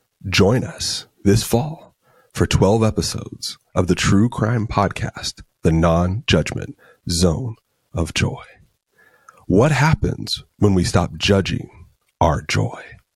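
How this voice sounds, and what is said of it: Quiet NPR-style radio voice. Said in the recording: “having to turn it up to hear you in the in your NPR voice. So we're speaking at normal volume now.”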